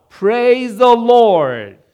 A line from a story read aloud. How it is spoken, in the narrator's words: shout